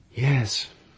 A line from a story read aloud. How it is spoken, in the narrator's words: said, and sighed